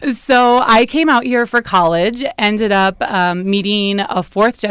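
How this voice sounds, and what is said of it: Usual voice. Nothing is said of it.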